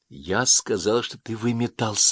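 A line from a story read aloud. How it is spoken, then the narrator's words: Plain. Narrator (Russian): сказала Ясмин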